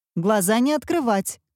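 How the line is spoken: Grandmother shouting. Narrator (Russian): кричала бабушка

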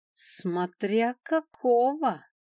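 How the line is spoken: Dragon's slightly sarcastic drawl. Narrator (Russian): с легкой ехицей в голосе протянул дракон

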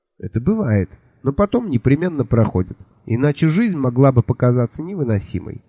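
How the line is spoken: Calm. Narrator (Russian): спокойно сказала леди

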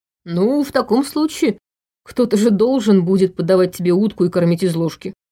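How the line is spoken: Chuckling. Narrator (Russian): хохотнул Иван

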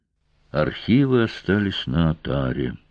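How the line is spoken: Muffled, hollow voice. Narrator (Russian): глухо сказала Домгаар

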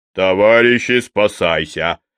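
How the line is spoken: Barked shout. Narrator (Russian): рявкнул Верзила

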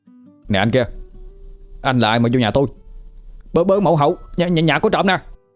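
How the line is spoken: Startled shout. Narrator (Vietnamese): Chợt nó sực tỉnh, mà la lên

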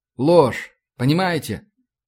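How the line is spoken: Tired. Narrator (Russian): устало продолжил я

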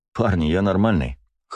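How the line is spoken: Snort. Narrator (Russian): хмыкнул я

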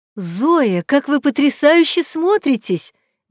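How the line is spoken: Mother's exclamation. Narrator (Russian): воскликнула мама парнишки

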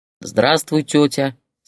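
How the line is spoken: Deep bass voice. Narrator (Russian): сказал Сережа басом

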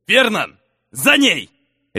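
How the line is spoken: Barking father. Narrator (Russian): рявкнул отец

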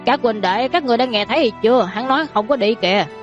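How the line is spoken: Big man laughing loudly. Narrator (Vietnamese): Đại hán kia giật mình, sau đó cười to nói

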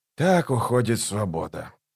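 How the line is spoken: Muttered. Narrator (Russian): пробормотал он

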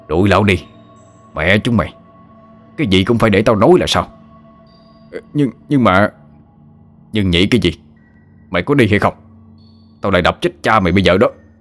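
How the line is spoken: Harsh shout. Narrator (Vietnamese): gằn giọng quát lên

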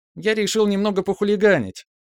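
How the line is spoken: Cheerful, wry. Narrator (Russian): весело сморщился мой личный юморист

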